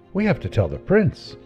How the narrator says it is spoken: The young man exclaimed

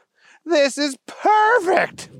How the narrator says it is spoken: Booger shouted

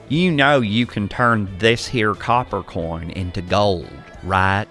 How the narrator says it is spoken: laughed

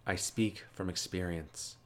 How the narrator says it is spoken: Kuroki said softly

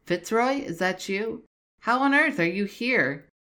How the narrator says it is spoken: William called out

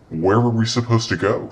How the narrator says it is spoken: she asked Don

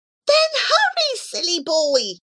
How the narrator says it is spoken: cried Muscuri with exasperation

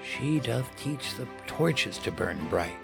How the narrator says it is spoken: whispered to himself

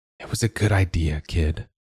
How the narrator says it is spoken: Joa whispered

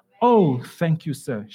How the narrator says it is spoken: she exclaimed

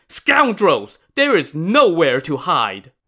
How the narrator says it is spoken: shouted

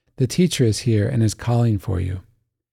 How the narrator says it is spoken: saying quietly

